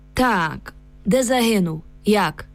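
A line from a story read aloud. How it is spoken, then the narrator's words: Grim metallic voice, soldier. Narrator (Ukrainian): Солдат умить спохмурнів і заговорив металевим голосом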